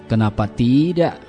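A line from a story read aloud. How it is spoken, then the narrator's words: Confident, smiling. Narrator (Indonesian): jawab Ahmad sambil tersenyum yakin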